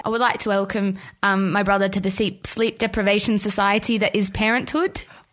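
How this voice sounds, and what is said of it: Imitates another person's voice, put-on accent. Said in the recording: “What the fuck was that accent”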